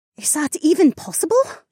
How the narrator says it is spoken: Amarla gasped

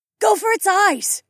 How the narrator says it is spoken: Lyca called out

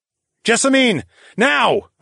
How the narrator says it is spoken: I shouted

